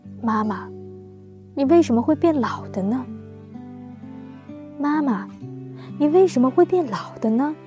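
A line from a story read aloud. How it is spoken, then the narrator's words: Drunk, low voice. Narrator (Chinese): 醉醺醺的，低声说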